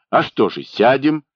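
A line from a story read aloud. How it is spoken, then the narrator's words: Cheerful announcement. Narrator (Russian): весело объявил Евхим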